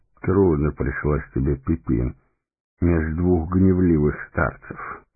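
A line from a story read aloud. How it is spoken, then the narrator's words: Gentle, affectionate. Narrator (Russian): ласково проговорил он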